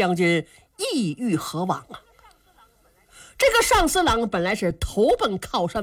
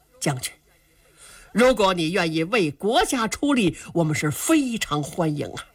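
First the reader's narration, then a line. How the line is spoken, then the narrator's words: Laughing. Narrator (Chinese): 杨林笑了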